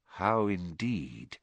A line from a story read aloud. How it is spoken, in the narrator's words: muttered Dumbledore